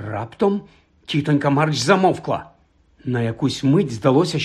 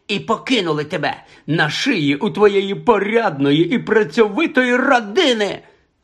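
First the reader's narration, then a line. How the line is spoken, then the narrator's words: Furious shrieking, old woman. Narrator (Ukrainian): Розлючено заверещала тітонька Марч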